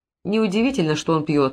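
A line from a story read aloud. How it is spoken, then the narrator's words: Contemptuous sigh. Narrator (Russian): вздохнул Брэд с презрением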